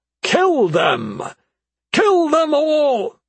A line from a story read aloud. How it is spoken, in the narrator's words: His voice rose until he sounded as if anger had taken over reason